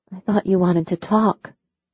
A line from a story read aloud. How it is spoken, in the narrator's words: she whispered